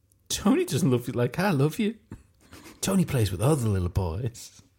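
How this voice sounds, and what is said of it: Weird comedic character voice. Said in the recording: “You're doing a comedy girl thing, going what? Into that weird voice.”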